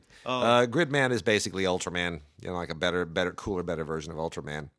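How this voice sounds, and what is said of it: Strained, worn-out voice. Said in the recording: “This is my voice, man. My voice is just killing me this week.”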